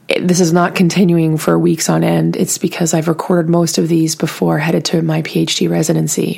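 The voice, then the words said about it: Scratchy, sore-throat voice. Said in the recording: “I have a little bit of a weird voice, scratchy, sore throat.”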